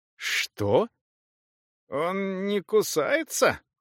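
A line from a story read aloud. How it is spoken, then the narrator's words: Creaking salamander voice. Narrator (Russian): проскрипела саламандра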